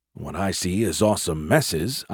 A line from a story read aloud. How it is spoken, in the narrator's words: I muttered